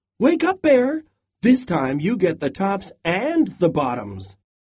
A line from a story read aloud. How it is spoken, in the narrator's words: Hare called out